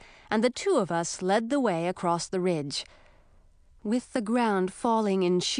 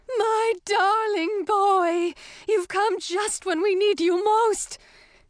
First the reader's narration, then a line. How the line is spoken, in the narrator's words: the queen exclaiming